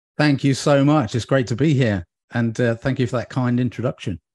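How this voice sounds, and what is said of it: British accent. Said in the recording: “your accent's enough... I'm going to be a British person in my next life... I can do the accent”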